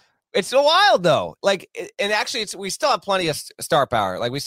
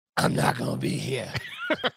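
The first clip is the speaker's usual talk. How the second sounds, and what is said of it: Magic Johnson impression, low voice. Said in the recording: “Do it in your Magic Johnson voice. ... I think I might be lower than what Magic was doing”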